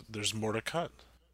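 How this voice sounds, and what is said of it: Serious NPR radio announcer voice. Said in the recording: “in a weird voice? ... my serious NPR voice”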